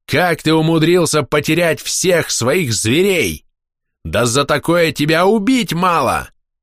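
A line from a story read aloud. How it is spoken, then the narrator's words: Angry yelling. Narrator (Russian): Боярин Возгарь орал на меня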